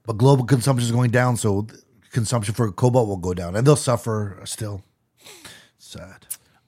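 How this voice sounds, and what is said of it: Imitates another person's voice. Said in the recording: “That's Trump. That's my Trump impression.”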